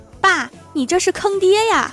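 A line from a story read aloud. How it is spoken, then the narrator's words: Shouted. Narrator (Chinese): 李逍遥就喊出了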